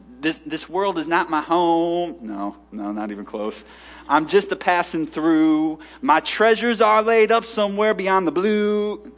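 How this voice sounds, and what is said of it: Singing off key, bluegrass twang. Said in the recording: “That kind of gospel bluegrass kind of a twang ... I'm off key.”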